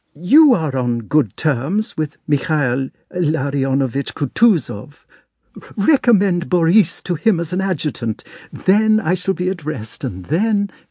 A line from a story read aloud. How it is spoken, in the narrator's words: she faltered